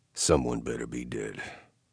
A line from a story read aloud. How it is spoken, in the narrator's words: I muttered